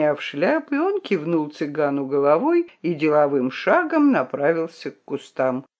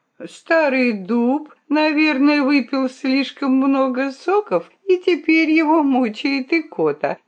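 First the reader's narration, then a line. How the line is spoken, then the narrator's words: Laughing. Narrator (Russian): засмеялась Друмля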